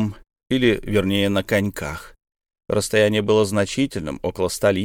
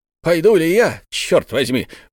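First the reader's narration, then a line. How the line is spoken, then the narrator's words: Exclaiming. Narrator (Russian): воскликнул Бензуф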